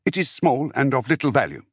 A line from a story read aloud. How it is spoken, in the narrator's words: Dimera replied